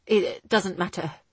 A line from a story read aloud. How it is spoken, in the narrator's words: he replied hastily